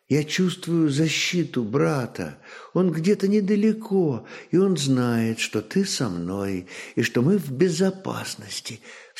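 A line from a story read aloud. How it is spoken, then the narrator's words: Girl's whisper. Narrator (Russian): все так же шепотом ответила девушка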